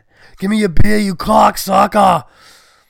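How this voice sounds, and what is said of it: Austrian accent mixed with Boston. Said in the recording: “Austria by way of Boston. That'd be a funny accent.”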